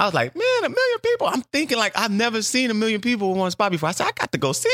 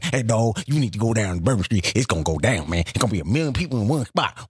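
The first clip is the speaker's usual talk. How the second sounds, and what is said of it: Imitated Louisiana accent. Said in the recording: “they had talked with that Louisiana accent.”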